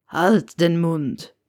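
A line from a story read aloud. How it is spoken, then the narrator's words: Croak. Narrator (German): krächzte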